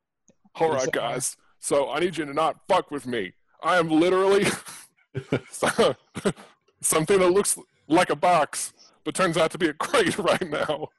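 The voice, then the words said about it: Bill Clinton impression. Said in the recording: “your accent is Bill Clinton.”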